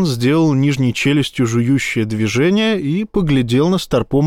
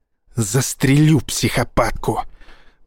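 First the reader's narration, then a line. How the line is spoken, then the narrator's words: Hissed. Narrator (Russian): прошипел Боровский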